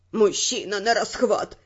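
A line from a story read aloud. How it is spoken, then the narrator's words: Groaning through laughter. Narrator (Russian): давясь хохотом, простонал Арман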